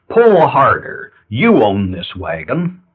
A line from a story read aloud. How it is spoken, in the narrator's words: shouting